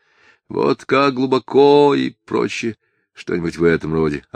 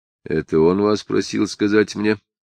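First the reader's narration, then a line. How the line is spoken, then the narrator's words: Quiet inquiry. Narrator (Russian): тихо осведомился Самгин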